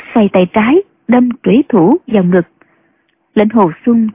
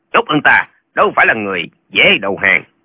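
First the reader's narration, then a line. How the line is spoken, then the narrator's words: Old man, harsh gritted voice. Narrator (Vietnamese): Lão đầu hói gằn giọng nói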